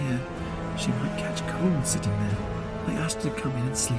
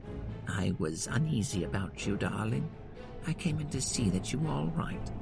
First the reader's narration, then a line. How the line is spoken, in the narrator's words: She said to me, even more sweetly and softly than her wont